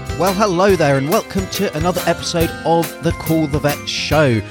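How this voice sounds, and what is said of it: British English accent. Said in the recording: “from my accent, you can probably tell that I was originally UK-based”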